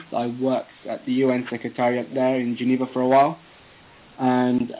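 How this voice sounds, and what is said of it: British accent. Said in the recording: “As you can hear from my tone of voice, I have a very British accent.”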